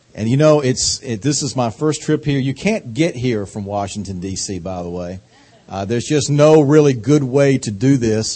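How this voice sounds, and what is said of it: Slow Southern US drawl. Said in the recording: “my accent ... I got this accent from living 45 years in North Carolina ... this wonderful southern drawl ... We talk slow. We savor our syllables”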